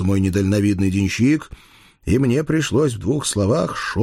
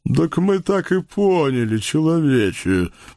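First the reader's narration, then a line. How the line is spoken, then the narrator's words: Deep booming man's voice. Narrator (Russian): прогудел за всех мясник Павлушечка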